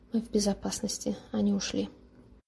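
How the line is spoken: Whisper. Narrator (Russian): Джером прошептал

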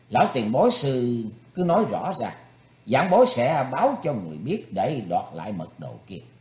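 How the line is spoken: Smiling. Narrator (Vietnamese): Thủy Tuấn Hạo mỉm cười nói

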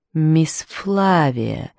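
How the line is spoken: Slow. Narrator (Russian): медленно произнес он

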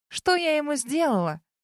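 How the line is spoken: Loud sob. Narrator (Russian): Громко всхлипнув

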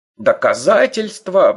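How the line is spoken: Roaring. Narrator (Russian): взревел Лодермульк

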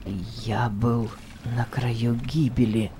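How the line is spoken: Muttering again. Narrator (Russian): пробормотал он еще раз

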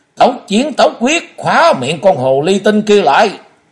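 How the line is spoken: Loud shout. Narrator (Vietnamese): Tuệ Long hét to lên

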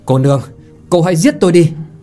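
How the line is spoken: Angry man. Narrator (Vietnamese): Chàng giận đỏ mặt, vội vãng bước đến trước giận dữ mà nói

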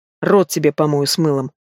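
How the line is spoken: Grim. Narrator (Russian): мрачно ответил Олег

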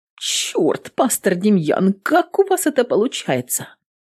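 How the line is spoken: Shaky mutter, loud exhale. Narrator (Russian): Дрогнувшим голосом пробормотала Эвелин, шумно выдыхая

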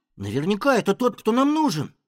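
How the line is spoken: Exclaiming. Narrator (Russian): воскликнул Фред

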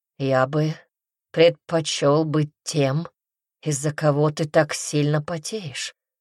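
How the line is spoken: Low voice. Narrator (Russian): сказал низким голосом

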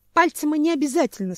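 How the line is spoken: Speaking, then sudden sob. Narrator (Russian): сказала ветка и вдруг всхлипнула

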